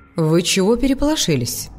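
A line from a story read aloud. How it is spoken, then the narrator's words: Confused question. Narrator (Russian): Снова спросила Зали, растерянно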